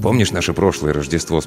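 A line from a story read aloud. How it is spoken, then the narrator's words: Plain. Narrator (Russian): спросил он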